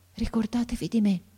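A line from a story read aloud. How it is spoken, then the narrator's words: Boy's breath-faint murmur. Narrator (Italian): mormorò ancora il ragazzo con una voce che pareva un soffio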